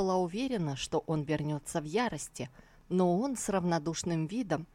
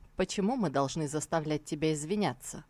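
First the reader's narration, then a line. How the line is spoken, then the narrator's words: Calm reply. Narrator (Russian): Тан Тайцзинь спокойно ответил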